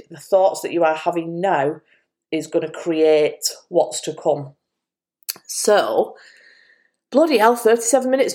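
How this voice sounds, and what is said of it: Speaking out of breath. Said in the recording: “no wonder I'm out of breath... Why am I out of breath? Maybe I hold my breath while I'm speaking.”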